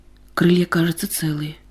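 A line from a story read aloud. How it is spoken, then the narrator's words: Uncertain mumble. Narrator (Russian): неуверенно пробормотал Пашка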